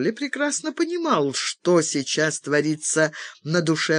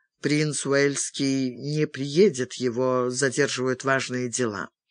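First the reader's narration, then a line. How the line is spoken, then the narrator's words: Gloomy. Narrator (Russian): Чарли мрачно сказал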